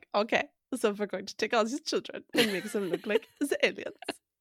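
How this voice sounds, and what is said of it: Put-on German accent. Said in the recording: “Your German accent is top notch.”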